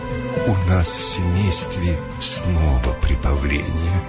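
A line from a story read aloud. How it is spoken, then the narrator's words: Plain. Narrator (Russian): сказала она мышке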